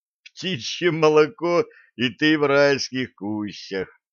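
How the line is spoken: Loud laughter. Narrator (Russian): расхохотался Блад

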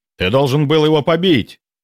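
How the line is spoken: Barked. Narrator (Russian): рявкнул Гвидон

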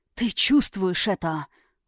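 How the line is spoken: Breathy exhale. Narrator (Russian): выдохнул

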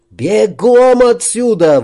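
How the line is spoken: Shouted. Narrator (Russian): выкрикнул Макс

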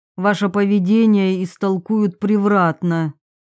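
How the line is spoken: Unpleasant voice. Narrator (Russian): сказала она своим неприятным голосом

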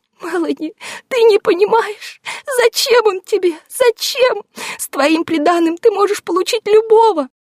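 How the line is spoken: Tearful wailing. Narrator (Russian): Сквозь слезы запричитала кузина

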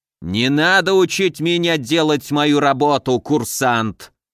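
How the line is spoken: Growling. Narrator (Russian): прорычал Разумовский

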